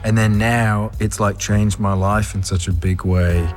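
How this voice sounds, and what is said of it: Slight Australian-sounding accent. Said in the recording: “there's a bit of an Australian accent going on there”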